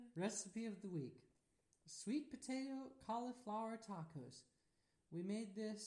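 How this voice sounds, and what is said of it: Usual voice. Nothing is said of it.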